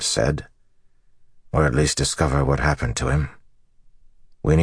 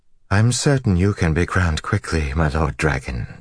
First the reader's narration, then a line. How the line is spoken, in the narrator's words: she said smoothly